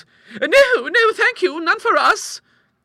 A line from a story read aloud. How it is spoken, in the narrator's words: cried her two visitors, earnestly